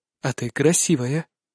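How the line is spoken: Tender whisper. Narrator (Russian): шепчу ей ласково

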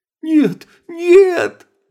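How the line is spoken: Shrill squeal. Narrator (Russian): взвизгнул Мараха

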